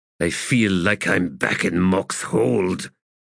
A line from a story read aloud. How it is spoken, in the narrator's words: he said in a growl